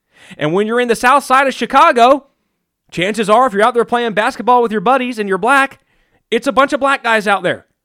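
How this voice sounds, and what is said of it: Southern redneck accent. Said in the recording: “my redneck accent ... I'm in the south, I'm a redneck”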